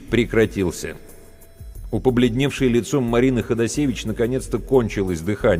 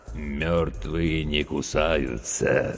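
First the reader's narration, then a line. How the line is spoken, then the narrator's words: Creaky, smirking voice. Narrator (Russian): скрипучим голосом проговорил ухмыляющийся Серега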